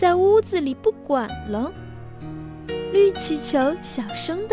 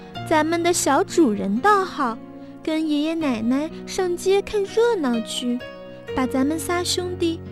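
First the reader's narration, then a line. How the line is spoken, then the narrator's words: Sighing. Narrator (Chinese): 黄气球叹了口气说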